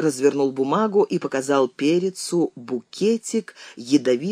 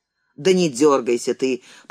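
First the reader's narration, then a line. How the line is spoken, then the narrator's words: Sharp shout. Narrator (Russian): прикрикнул Ким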